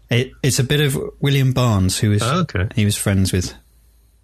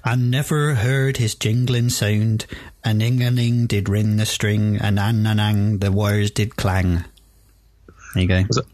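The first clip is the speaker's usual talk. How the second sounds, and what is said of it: Put-on Dorset rural accent. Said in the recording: “that was probably the worst Dorset accent ever ... it was good enough to fool me”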